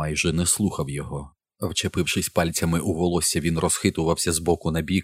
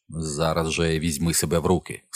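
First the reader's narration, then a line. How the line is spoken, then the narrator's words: Stern voice. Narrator (Ukrainian): сказав він суворо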